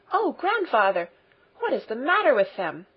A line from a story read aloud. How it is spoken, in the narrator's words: exclaimed Heidi in shocked surprise